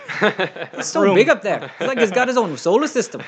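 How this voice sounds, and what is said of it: Bad put-on Scottish accent. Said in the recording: “That's a bad accent. ... Scottish. ... The Scottish has to kind of. Oh, man, that's awful.”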